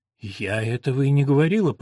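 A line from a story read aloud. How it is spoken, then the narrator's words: Muttered. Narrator (Russian): пробормотала Елена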